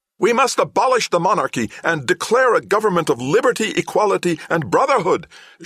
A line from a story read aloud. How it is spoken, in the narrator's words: shouted the youngest counselor